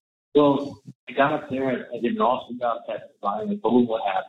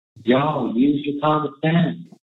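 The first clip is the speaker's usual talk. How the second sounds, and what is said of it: Put-on sweet Southern accent. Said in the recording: “put on the southern accent... boasty and sweet and southern... really put the Tallahassee charm on”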